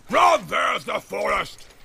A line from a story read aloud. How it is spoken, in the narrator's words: He shouted